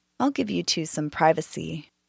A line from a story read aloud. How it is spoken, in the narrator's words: with a smile as she whispered